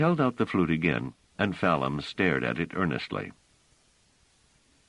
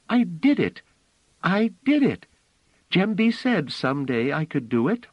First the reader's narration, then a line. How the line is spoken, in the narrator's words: Phelim cried out